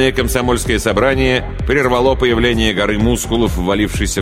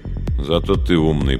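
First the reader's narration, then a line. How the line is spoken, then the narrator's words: Muttered. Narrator (Russian): пробормотал кто-то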